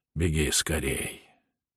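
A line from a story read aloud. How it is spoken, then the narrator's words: Whispered. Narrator (Russian): дежурный ундерок шепнет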